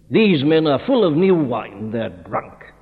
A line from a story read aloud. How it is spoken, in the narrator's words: Others, mocking, said